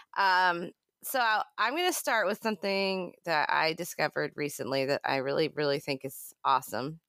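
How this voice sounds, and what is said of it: Congested, stuffy-nosed voice. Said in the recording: “A little congested, so sorry if I sound like a drunken kindergartner ... And a little tired”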